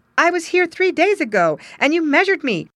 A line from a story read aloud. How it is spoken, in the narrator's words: exclaimed